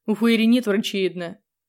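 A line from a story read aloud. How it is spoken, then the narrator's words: Grim. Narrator (Russian): мрачно ответил он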